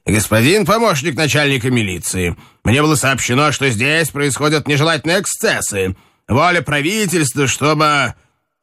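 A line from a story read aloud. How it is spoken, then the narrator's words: Stern call. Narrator (Russian): окликнул строго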